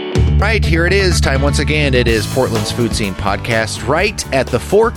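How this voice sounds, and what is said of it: Slightly deeper than usual voice. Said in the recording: “your slightly deeper voice? ... My slightly deeper voice. ... the radio voice going on ... seasonal allergies”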